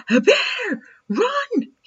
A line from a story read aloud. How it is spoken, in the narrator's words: yelled